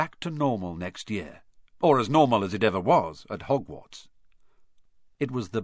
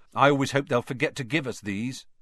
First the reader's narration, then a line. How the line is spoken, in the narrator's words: said Fred Weasley, sadly